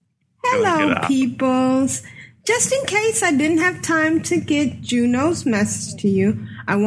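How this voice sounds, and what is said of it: Usual voice. Nothing is said of it.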